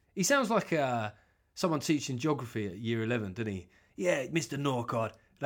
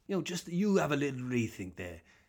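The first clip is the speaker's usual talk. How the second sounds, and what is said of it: Welsh accent impression of Owen Smith. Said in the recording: “the Welsh guy ... you try doing the Welsh accent is so hard, man. You can just, it can get Indian on you before you've even thought about it”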